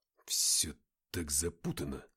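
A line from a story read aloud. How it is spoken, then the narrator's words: Muttering. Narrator (Russian): пробормотал Артем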